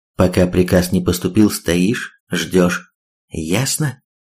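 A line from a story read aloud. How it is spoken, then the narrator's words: Calm continuation. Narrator (Russian): та вполне спокойно продолжила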